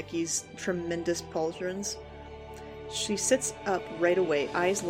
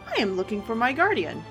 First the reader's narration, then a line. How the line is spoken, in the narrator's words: he chirps